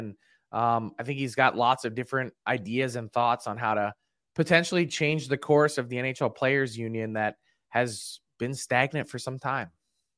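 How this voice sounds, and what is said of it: Sounds a little sick. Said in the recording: “You sound a little sick”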